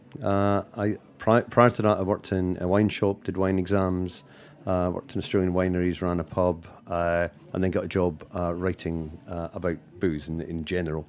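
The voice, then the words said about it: Scottish Glasgow accent. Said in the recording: “From Glasgow in Scotland. You can probably tell from the accent.”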